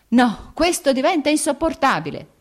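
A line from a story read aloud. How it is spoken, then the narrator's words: Shouted. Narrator (Italian): gridò Vronsky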